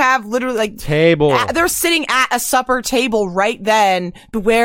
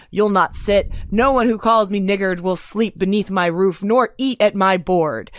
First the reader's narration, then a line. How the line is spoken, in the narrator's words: growled